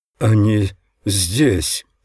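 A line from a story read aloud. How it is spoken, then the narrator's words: Dejected voice. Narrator (Russian): сказал Геам упавшим голосом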